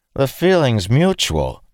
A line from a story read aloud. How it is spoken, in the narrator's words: Dalen said, raising his voice